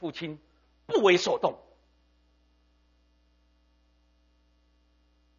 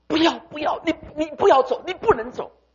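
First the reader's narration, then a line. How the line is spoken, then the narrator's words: Children crying out. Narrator (Chinese): 十个孩子 哭泣的喊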